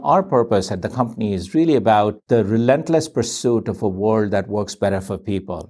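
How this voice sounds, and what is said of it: Very fast speech. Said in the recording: “said that very quickly”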